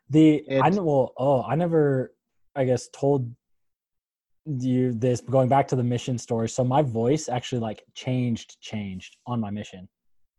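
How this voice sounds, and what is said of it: Deeper voice, slightly sick. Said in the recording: “He is sick. You would not know that ... is sick. ... my voice is a little deeper ... You got more of a radio voice”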